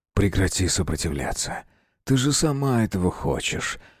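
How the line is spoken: Excited whisper. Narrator (Russian): возбужденно прошептал Демир

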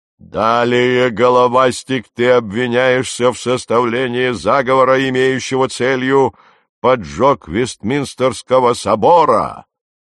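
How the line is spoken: Roar. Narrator (Russian): проревел Нептун

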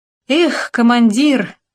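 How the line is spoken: Euphoric exclamation. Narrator (Russian): в эйфории воскликнул Татарчук

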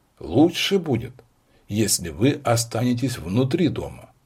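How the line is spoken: Serious objection. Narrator (Russian): серьезным тоном возразил молодой сыщик

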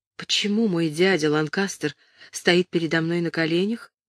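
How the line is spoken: Whispering. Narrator (Russian): Ричард прошептал

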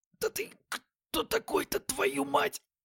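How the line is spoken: Hoarse rasp. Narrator (Russian): прохрипел

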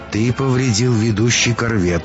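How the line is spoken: Calm. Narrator (Russian): спокойно произнесла Исенка

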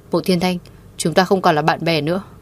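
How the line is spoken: Cold, strained breath. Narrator (Vietnamese): Thẩm Duyệt Nhiên khó khăn gắng sức hít thở thật sâu, lạnh lùng nói

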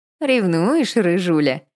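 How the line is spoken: Snide teasing reply. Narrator (Russian): ехидно ответила Вика вопросом на вопрос

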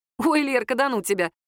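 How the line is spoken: Laughing. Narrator (Russian): рассмеялась Даша

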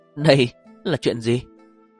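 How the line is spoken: Embarrassed cry. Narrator (Vietnamese): Nàng xấu hổ kêu lên

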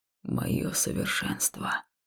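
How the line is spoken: Hoarse exhale. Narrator (Russian): хрипло выдохнул он

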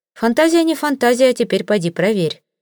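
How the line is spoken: Snorting. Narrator (Russian): хмыкнул Таузенд

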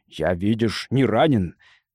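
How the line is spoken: Brave growling man. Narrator (Russian): храбро рычал мужчина

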